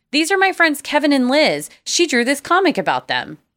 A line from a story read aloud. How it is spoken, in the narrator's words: Matt exclaimed